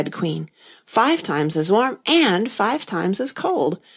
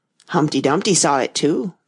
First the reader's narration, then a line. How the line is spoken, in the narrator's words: the White Queen went on in a low voice, more as if she were talking to herself